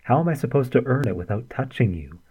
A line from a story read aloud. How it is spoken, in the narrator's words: Artemy asked, nostrils flared in indignation